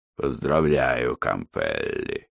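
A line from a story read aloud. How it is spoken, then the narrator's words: Hoarse voice from behind. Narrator (Russian): Раздался у него за спиной хриплый голос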